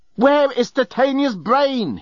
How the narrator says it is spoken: he yelled

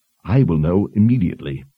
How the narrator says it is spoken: Anne said

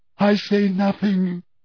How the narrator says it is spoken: she choked

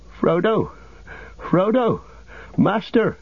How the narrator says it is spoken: he cried, half sobbing

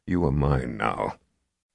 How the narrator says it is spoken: said in a low, dangerous tone

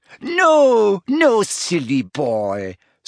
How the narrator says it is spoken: said Fleur with a tinkling laugh

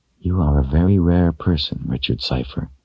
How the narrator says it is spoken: she whispered to him

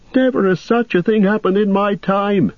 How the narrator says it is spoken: cried, in horror

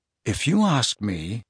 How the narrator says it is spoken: said Harry quietly

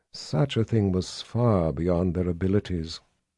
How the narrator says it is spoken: the woman said in a quiet voice, but one that carried the undertone of profound power

